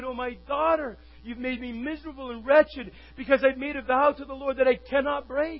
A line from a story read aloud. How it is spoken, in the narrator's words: he tore his clothes and cried